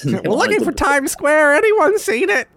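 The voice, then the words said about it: Old lady voice. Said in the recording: “talking like an old lady”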